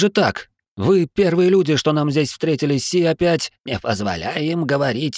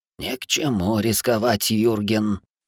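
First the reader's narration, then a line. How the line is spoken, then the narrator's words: Hoarse voice from behind. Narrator (Russian): Снова послышался сиплый голос за спиной вожака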